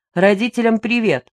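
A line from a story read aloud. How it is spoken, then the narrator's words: Shouted after someone. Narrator (Russian): крикнул Антон Григорьевич вслед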